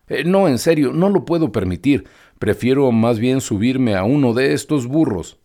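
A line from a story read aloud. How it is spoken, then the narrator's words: Exclaiming. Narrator (Spanish): exclamó Pinocho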